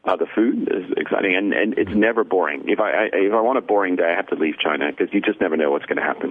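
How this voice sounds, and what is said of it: Mixed British-American accent. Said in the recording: “my accent is a bit weird. I'm a Brit who grew up in New Jersey in Paris”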